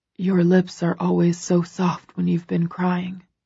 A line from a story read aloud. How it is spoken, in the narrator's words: he murmurs